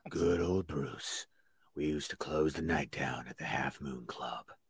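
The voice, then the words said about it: Very low-pitched Richard Mullen impression. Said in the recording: “See, you gotta get that Richard Mullen because he doesn't do anything. He doesn't do anything really. He just goes really down here.”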